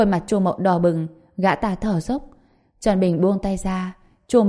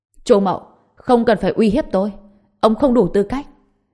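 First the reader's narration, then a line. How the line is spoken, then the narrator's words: Furious, murderous shout. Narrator (Vietnamese): tràn đầy tức giận cùng sát khí, hét lớn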